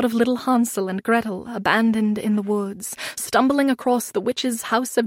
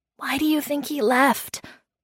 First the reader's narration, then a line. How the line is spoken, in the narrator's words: Vulfril whispered